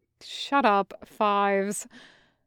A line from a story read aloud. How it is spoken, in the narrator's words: the kind trooper said, but his voice came through clearly amused, even through the helmet mics